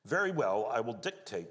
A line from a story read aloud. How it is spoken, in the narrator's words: said Peter